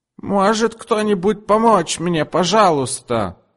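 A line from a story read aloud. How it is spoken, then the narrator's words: Yelled. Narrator (Russian): завопила она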